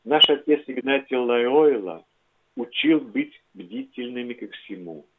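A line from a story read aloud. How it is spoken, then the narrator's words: Gentle objection. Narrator (Russian): мягко возразил Ванилович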